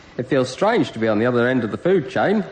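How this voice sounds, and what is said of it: Put-on accent. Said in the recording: “You get a bonus for your accent.”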